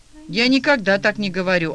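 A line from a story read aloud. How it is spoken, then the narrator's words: Offended mumble. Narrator (Russian): обиженно пробубнил Олег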